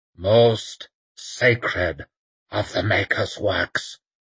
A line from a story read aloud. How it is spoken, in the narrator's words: croaked Werdenur